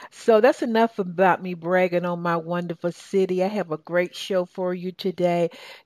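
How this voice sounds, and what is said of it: Southern American accent. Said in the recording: “my southern accent. And they sort of say, you sound so southern”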